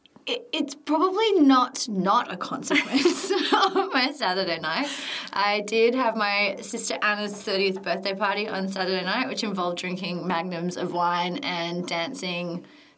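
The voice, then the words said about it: Husky, croaky voice. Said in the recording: “I think I'm losing my voice, so I might be a bit husky today ... It's like croak. I'm at the like sexy stage.”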